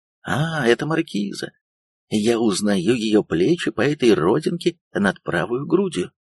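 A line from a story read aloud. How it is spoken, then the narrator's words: Confident exclamation. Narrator (Russian): каждый мог безошибочно воскликнуть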